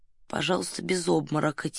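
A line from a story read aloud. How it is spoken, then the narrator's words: Quiet. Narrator (Russian): тихо сказал Фандорин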